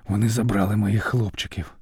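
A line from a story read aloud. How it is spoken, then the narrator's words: Sudden tired whisper. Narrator (Ukrainian): раптом втомлено прошепотів Іолай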